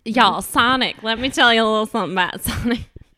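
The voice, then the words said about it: Put-on Texas accent. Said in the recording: “My Texas accent.”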